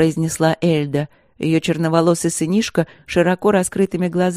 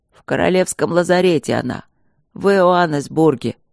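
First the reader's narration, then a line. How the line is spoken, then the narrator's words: Hopeless hoarse rasp. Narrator (Russian): прохрипел Рыжов обреченно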